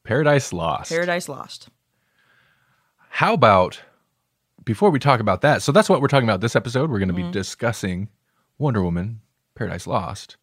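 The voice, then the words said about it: Polished radio announcer voice. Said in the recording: “Why do I have a much more podcastery voice this episode ... You snapped into some radio voice there.”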